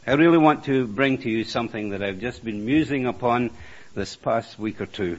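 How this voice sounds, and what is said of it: Noticeable accent. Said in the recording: “I hope that you will be able to follow me in the accent that I've got, but I can't do much about it”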